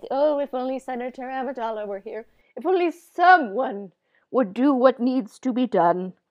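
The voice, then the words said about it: Palpatine impression. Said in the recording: “that was an amazing impression of Palpatine”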